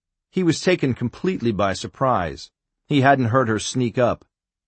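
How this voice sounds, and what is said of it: Usual voice. Nothing is said of it.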